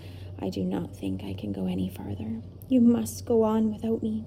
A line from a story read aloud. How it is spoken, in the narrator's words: said in a tired voice